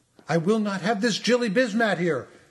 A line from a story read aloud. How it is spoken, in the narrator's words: she shouted in tundra glee